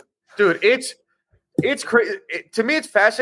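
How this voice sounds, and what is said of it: Usual voice. Nothing is said of it.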